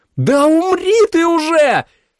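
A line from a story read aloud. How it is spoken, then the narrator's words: Tearful scream. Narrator (Russian): закричала Джули вся в слезах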